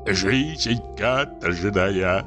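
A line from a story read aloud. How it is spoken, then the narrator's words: Grumbling with mouthful of bread. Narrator (Russian): ворчал он, перекатывая языком во рту крохи черного хлеба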